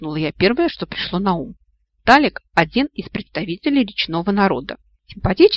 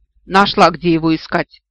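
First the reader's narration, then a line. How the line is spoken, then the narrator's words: Scornful snort. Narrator (Russian): фыркнула интересная девушка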